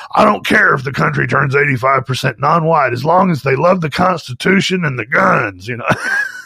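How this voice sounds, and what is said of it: Hoarse imitation of another person's voice. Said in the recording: “You do a pretty good Alex, man. ... All I have to do is make my voice real hoarse. We have the same accent”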